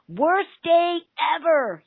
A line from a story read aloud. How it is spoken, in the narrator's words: yelled